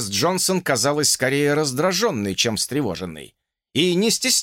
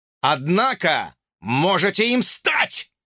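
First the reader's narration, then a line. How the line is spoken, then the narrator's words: Shouted. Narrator (Russian): заорал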